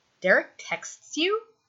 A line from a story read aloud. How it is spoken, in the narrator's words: Scott asks